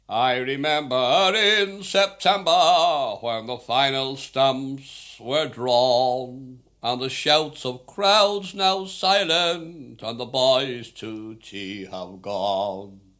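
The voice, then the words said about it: Sings in a put-on Oxford accent. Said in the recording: “I'll have to sing this song in a, an Oxford accent ... my Oxford accent?”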